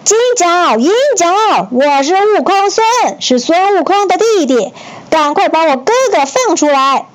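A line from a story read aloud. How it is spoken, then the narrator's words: Loud shout. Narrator (Chinese): 孙悟空 大声喊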